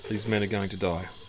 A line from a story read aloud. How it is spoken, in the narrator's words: Owen says softly